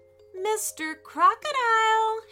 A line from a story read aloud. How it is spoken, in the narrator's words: Harry cried